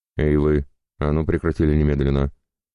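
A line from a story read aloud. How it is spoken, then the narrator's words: Barking shout. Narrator (Russian): Неожиданно рявкнул кто-то у нас за спинами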